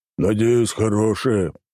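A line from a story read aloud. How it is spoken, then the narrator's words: Grumbling. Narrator (Russian): проворчал он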